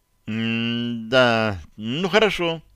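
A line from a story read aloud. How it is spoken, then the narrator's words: Uncertain mumble. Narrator (Russian): неуверенно пробормотал я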